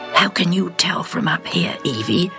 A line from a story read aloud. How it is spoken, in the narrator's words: whispers back to her unbelievingly